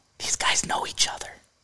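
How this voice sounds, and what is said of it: Whispering very softly. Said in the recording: “I'm whispering that really, really softly.”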